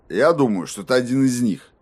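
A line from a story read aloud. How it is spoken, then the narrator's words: Grumbled. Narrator (Russian): пробурчал шериф Эйвори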